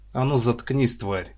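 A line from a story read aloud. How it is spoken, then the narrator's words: Mildly angry. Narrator (Russian): не слишком даже зло сказал второй светлорожденный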